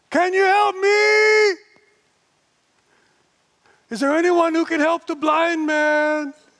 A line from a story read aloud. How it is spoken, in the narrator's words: in spite of the humiliation, you have to scream